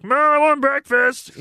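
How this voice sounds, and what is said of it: Pee-wee Herman voice impression. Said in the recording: “the Pee-wee voice”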